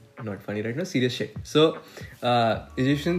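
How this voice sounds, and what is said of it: Usual voice. Nothing is said of it.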